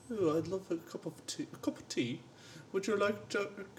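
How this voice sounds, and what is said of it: Put-on posh royal British accent. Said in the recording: “royal pronunciation accent ... imagine if you were in Downton Abbey ... the Queen's English”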